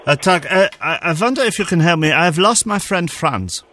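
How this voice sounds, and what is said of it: Put-on German accent. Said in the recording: “I'll apologise for the accent in advance ... calling Germany”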